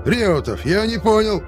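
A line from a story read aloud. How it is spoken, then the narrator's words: Yelled after someone. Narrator (Russian): заорал мне вслед Шипко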